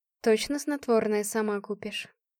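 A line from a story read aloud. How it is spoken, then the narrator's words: Quiet question. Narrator (Russian): спросила она негромко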